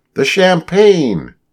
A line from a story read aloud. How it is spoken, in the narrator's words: in one voice they cried